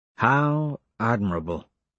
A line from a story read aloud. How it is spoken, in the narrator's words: I mutter